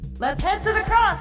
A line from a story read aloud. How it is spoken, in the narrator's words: suddenly someone shouted